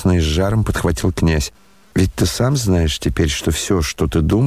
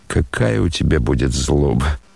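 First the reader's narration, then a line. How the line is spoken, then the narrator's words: Laughing again. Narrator (Russian): засмеялся опять Рогожин в ответ на горячую внезапную речь князя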